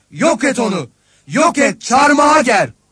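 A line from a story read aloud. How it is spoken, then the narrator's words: Crowd shouting. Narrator (Turkish): diye bağırıştılar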